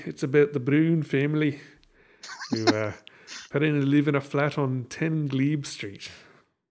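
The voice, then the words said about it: Poor put-on Scottish accent. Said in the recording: “my horrible Scottish accent ... Bit of a brogue there ... that's a horrible accent”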